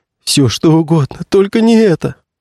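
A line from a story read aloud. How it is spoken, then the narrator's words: Moaning. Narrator (Russian): стонал актер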